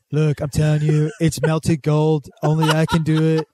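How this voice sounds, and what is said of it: Imitates another person's voice, slipping British. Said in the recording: “You turn British at the end. ... You're a British agent, Trump. ... I can't hold that accent”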